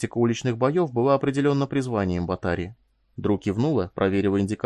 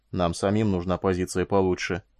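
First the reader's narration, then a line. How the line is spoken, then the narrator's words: Mutter. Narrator (Russian): пробормотал Батари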